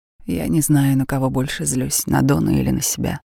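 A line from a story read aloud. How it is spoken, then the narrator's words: Tired voice. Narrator (Russian): Усталым голосом она сказала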